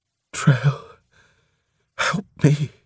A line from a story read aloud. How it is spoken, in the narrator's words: she breathed weakly